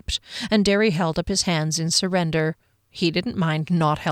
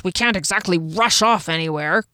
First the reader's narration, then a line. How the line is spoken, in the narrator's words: grunted Janek, his usual temperament having returned